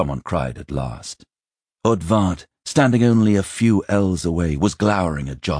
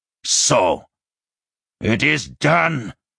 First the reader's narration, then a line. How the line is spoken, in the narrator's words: he snarled at last